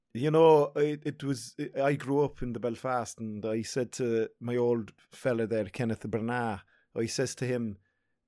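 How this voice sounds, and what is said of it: Failed Belfast accent, sounds Dublin. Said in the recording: “Still can't do the Belfast accent despite being from there. ... Yeah, it's more of a Dublin accent you got going. ... Southern Ireland, no doubt about that.”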